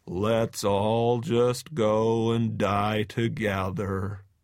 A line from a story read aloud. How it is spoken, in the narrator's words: Thomas Eeyore gloomily droning